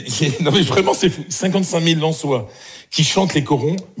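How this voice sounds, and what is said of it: Northern French accent. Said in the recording (French): “j'ai mon accent du Nord qui remonte”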